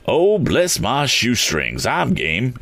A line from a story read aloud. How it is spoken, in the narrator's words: exclaimed the eccentric man